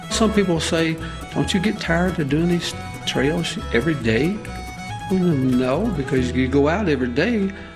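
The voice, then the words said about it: Slight Southern country drawl. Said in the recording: “you kind of got a drawl ... do I sound a little country? And they'll say, well, just a little bit.”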